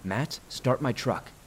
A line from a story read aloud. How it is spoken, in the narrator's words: Joe said